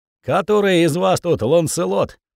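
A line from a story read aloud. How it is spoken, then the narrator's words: Bearded man's loud bark. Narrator (Russian): рявкнул бородач на весь двор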